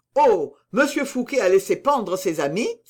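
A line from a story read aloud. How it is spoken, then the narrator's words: Exclaimed. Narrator (French): s'écria Porthos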